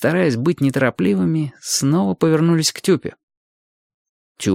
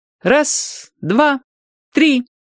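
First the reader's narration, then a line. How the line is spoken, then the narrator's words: Ringing child's voice counting. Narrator (Russian): начал считать Юрчик звонким своим голоском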